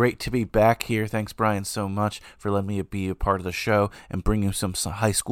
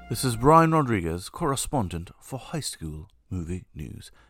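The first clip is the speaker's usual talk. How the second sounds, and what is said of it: Put-on accent of unclear origin. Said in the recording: “I have no idea why I'm doing an accent and what country it's from”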